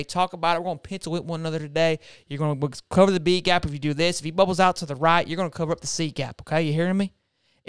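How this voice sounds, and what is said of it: Put-on Southern country accent. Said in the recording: “the country accent ... That accent's like, hey, Waffle House”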